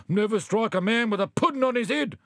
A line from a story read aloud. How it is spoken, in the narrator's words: The wombat tried to escape punishment by shouting